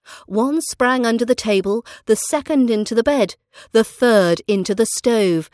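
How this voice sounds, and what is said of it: British English accent. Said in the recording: “British accent training”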